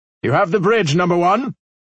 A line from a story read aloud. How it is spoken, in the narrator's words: nearly shouted